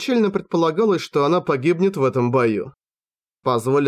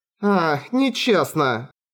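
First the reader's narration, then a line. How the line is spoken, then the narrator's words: Laughing. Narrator (Russian): Ктолли рассмеялась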